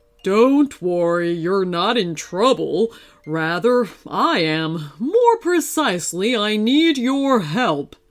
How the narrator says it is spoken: the bear growled

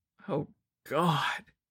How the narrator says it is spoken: moaned

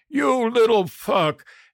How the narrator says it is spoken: He roared

